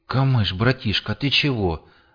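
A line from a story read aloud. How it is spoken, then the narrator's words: Breathed out. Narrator (Russian): выдохнул рокер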